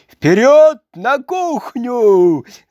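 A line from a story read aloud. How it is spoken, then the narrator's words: Shouting. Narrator (Russian): закричал он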